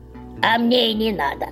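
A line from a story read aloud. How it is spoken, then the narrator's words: Scoffing snort. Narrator (Russian): хмыкнула Яга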